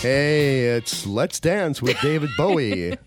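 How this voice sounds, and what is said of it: Radio DJ FM announcer voice. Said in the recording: “Doing a great FM voice ... Really good at that ... my old disc jockey days”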